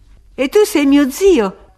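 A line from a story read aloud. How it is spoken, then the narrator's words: Exclamation. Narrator (Italian): esclamò lei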